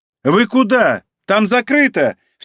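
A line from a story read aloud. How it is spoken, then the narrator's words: Angry shout. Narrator (Russian): в сердцах крикнула администратор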